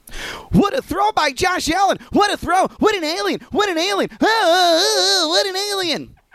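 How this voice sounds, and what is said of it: Sports announcer impression. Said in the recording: “my Tony Romo impression before, right? I mean, it's second to none ... my impression of Tony Romo calling a Buffalo Bills game”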